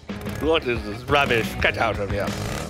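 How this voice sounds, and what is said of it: Put-on English accent. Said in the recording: “I say give it an English accent.”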